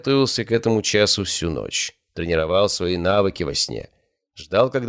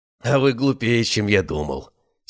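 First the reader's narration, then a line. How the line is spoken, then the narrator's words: Relieved sigh. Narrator (Russian): с облегчением вздохнул Владыкин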